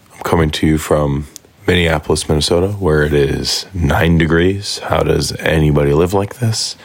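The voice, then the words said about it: Hoarse, strained voice. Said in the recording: “I have lost my voice.”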